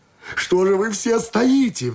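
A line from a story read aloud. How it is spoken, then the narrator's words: Sudden shout. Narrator (Russian): вдруг закричал он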